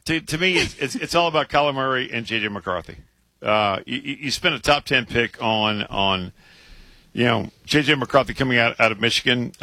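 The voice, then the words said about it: Strained, hoarse voice. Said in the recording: “I'm losing my voice. ... Your voice is struggling a little bit. ... Can you talk?”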